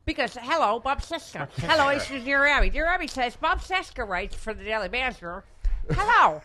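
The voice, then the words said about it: Nerdy character voice. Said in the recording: “that exact voice ... like the basement of the science building nerd voice”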